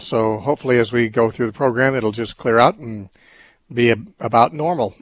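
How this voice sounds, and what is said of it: Voice sounding strange, not normal. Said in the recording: “my voice is doing strange things today, but it's probably just because I haven't been talking for a while”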